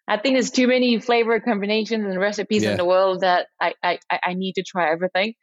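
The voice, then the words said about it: Very thick French accent. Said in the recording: “I'm French, so as you can probably hear it in my very thick accent”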